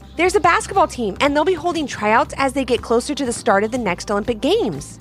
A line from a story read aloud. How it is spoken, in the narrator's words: said